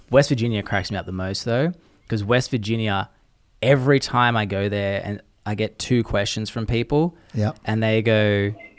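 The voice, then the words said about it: Noticeable non-local accent. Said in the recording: “He's got a really cool accent.”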